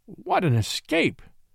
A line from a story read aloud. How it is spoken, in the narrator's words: he gasped, after a long breath